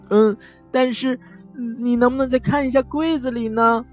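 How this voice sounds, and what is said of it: Trembling whisper. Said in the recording (Chinese): “颤抖着小声说”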